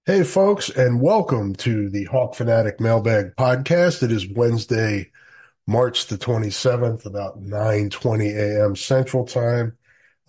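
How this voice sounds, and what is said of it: Sick, under-the-weather voice. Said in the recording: “As you can probably tell from my voice, I'm a little under the weather”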